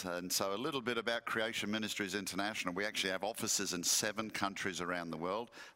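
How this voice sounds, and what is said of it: Deep Southern US accent. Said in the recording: “this deep southern accent”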